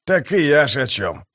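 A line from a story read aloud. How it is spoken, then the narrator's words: Muttered. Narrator (Russian): пробормотал скрипач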